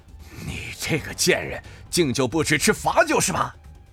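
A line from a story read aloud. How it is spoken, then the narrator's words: Angry. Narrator (Chinese): 白虎终于发怒了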